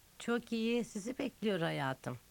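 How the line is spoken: Laughing. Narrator (Turkish): dedi Amanda gülerek

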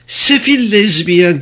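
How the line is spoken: Shouted. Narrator (Turkish): diye bağırdı

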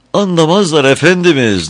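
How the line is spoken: Chief chamberlain crying out. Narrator (Turkish): diye haykırdı baş mabeyinci

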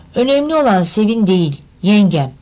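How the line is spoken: Plain. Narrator (Turkish): dedi Cahit

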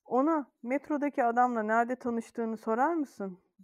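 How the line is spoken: Grumbling. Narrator (Turkish): diye homurdandı

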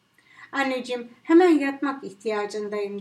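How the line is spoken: Plain. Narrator (Turkish): dedi

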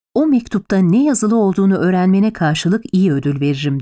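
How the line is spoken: Plain. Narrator (Turkish): dedi

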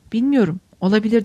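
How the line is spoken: Plain. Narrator (Turkish): dedi

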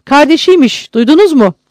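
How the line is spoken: Loudly. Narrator (Turkish): Adamlarına yüksek sesle

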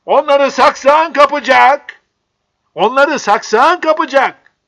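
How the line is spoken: Shouted. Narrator (Turkish): diye bağırdı

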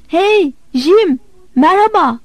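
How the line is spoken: Shouted. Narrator (Turkish): diye bağırdım

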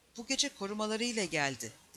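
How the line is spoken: Plain. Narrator (Turkish): dedi

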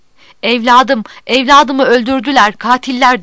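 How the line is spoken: Crying out. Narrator (Turkish): diye haykırıyordu

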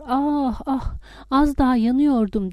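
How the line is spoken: Groaning in pain. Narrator (Turkish): Acı içinde inleyip sızlıyor

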